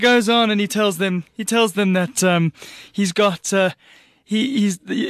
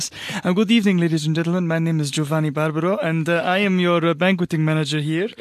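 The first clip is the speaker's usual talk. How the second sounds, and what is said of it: Bad put-on Italian accent. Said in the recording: “he's often has a bad Italian accent. It goes something like this.”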